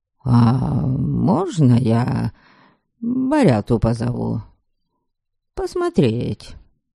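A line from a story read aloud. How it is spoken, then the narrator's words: Muttered. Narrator (Russian): пробормотал он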